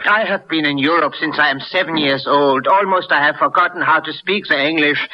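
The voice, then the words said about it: Foreign-accented English. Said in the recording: “With that accent?”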